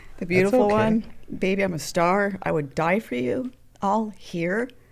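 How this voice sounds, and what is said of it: Choked-up, emotional voice. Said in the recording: “I'm going to get choked up. I knew it.”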